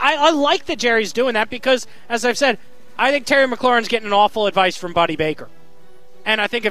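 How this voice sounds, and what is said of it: Usual voice. Nothing is said of it.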